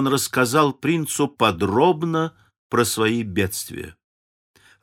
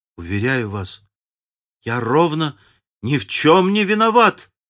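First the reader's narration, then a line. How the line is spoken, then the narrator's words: Tearful exclamation. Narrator (Russian): воскликнул со слезами в голосе Сайлес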